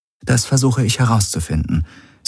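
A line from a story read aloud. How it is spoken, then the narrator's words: Plain. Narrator (German): sagte Ylana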